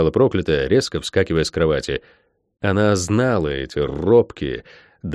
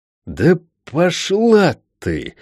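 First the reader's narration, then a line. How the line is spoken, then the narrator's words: Strained exhale. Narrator (Russian): выдохнула проклятая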